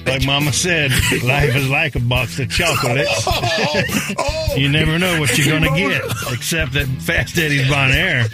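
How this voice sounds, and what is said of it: Forrest Gump character impression. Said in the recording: “my best Forrest Gump impression”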